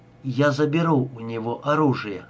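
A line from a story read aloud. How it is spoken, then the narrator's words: Calm. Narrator (Russian): спокойно сказала она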